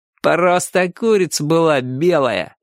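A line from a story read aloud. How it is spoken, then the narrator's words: Mocking. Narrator (Russian): насмешливо сказал один из рыжиков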